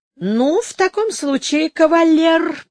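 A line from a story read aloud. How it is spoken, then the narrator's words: Meek, almost pleading. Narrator (Russian): прибавила она кротким, почти умоляющим тоном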